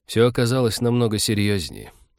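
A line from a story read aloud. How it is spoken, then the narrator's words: Sighing. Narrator (Russian): вздохнула Кира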